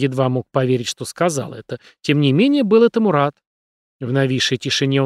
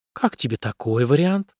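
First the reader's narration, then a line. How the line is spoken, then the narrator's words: Whispered. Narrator (Russian): прошептала она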